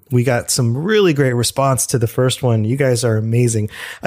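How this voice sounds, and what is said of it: Slightly funny, congested-sounding voice. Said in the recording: “my voice sounds a little funny this week. I've been fighting a cold”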